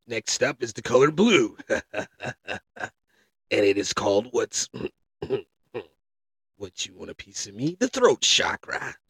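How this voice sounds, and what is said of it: Mock kung fu master voice. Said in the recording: “I'm talking in my kung fu voice.”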